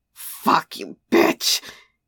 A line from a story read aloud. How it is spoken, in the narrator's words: he growled